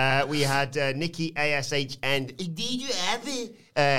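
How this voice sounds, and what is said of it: Usual voice. Nothing is said of it.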